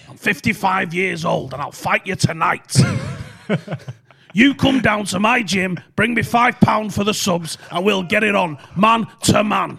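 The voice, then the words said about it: Imitates another person's voice. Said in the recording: “It's the craziest accent that I could ever find ... That's exactly how it sounds.”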